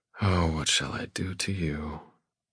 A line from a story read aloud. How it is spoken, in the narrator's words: I murmur